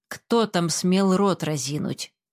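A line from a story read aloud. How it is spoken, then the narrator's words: Stern, menacing. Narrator (Russian): сказал грозно исправник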